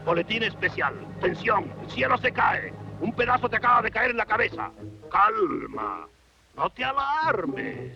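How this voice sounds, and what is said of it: Voice from beyond the grave. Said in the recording (Spanish): “voz de ultratumba”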